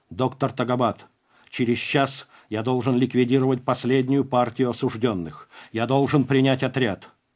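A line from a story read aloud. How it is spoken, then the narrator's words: Sharp. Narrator (Russian): Я резко произношу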